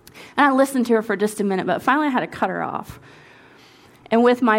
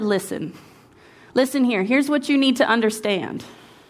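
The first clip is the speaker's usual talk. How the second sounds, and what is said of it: Stern scolding mom voice. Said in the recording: “my best mom voice that I probably haven't pulled out since Chrissy was like about 8 years old... my best mom voice”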